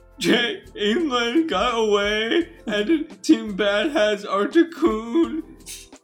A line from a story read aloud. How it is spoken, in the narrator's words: cried